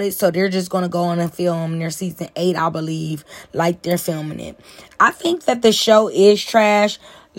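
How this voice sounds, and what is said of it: Strong natural accent coming through. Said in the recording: “I'm talking real ratchet today. Like, my accent is really, really coming out.”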